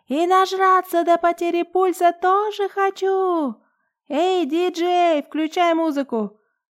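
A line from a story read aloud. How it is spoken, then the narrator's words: Loud yelling. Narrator (Russian): Ленка, наша с Жанной однокурсница, громко орет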